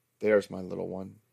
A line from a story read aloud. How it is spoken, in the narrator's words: said